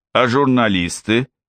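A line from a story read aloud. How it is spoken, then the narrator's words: Plain. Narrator (Russian): спросил один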